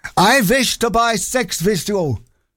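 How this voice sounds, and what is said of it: Put-on German accent. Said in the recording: “A German guy called Helmut ... Sorry about the accent”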